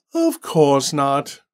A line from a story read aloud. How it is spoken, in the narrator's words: Randall sighed